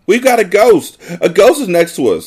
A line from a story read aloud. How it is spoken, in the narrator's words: I shrieked